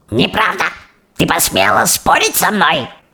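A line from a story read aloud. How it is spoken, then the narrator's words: Shrieking witch. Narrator (Russian): взвизгнула великая ведьма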